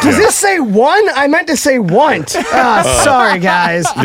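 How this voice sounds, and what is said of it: Usual voice. Nothing is said of it.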